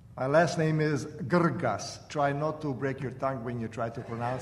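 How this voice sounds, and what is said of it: Slight foreign accent. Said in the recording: “He has a little bit of an accent, so you might have a little fun listening to his voice.”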